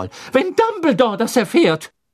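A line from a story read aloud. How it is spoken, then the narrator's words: Called out. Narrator (German): rief Professor McGonagall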